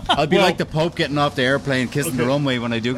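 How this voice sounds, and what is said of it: Irish accent. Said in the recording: “You're Irish? ... Your accent's still there.”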